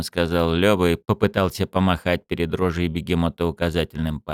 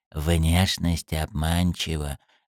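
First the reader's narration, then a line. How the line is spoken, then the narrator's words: Conspiratorial whisper. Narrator (Russian): заговорщически прошептал Лёва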